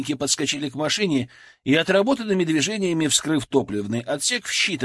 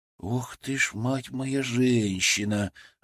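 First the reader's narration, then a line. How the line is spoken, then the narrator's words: Breathless exclamation. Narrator (Russian): выдохнул я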